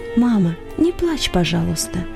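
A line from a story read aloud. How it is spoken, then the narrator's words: Whisper in ear. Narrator (Russian): Иосиф шепнул ей на ухо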